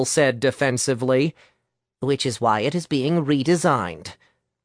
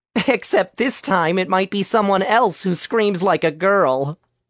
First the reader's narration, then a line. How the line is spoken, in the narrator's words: Jill chuckled